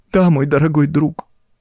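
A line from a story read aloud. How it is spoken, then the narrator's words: Sobbing. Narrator (Russian): продолжала всхлипывая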